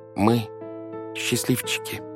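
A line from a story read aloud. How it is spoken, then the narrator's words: Quiet confession. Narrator (Russian): тихо призналась Вайолет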